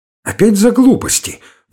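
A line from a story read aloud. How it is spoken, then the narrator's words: Exclaimed. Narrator (Russian): воскликнула Александра Петровна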